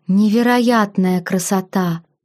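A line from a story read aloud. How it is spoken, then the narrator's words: Awed breath. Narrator (Russian): выдохнула впечатленная я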